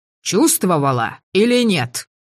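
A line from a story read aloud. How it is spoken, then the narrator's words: Angry bark. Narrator (Russian): гаркнул Давьер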